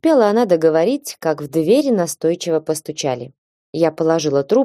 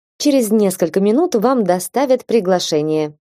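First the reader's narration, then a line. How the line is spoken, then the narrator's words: Cheerful. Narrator (Russian): радостно продолжила моя собеседница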